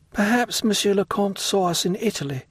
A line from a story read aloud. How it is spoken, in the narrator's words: said Valentine timidly